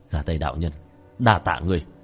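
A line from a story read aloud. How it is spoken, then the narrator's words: Smiling mutter. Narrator (Vietnamese): khóe miệng của tiểu thất hiện lên một nụ cười, lẩm bẩm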